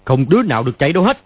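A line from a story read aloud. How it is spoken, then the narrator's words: Shout. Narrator (Vietnamese): Hắn quát lên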